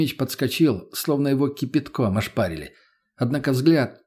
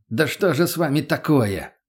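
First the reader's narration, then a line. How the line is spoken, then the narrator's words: Exasperated bark. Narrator (Russian): не выдержал, рявкнул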